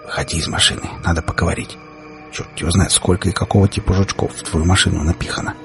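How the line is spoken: Whisper. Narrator (Russian): прошептал я

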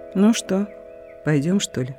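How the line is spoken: Calm question, grandmother. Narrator (Russian): спокойно спросила бабушка

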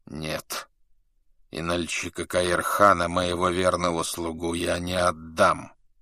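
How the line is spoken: Quiet, trembling voice. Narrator (Russian): Его губы дрожали, когда он тихо сказал

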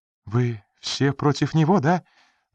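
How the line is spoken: Sudden pleading. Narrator (Russian): вдруг взмолилась Рита

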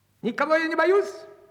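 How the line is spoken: Shout across the forest. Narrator (Russian): крикнул он на весь лес

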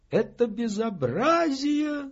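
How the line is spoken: Sparrow squeaking. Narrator (Russian): запищал воробей

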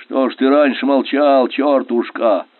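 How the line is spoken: Displeased grumble. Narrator (Russian): Недовольно проворчал Верещагин

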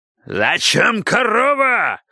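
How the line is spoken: Madman yelling. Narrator (Russian): орал сумасшедший, приближаясь с топором

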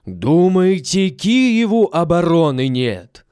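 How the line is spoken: Loud shout. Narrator (Russian): сам громким голосом кричит

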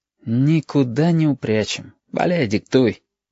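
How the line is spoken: Sighing. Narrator (Russian): вздохнул Абов

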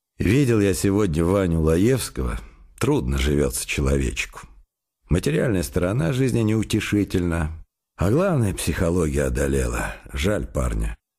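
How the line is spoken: Sighing speech. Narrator (Russian): он вздохнул и сказал

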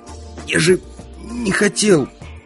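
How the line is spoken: Hoarse rasp. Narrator (Russian): прохрипел

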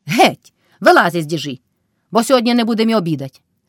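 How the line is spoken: Woman shouting scoldingly. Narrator (Ukrainian): крикнула Кайдашиха на милашку

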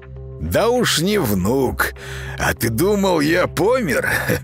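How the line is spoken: Old man's loud laughter. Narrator (Russian): дед Матвей расхохотался

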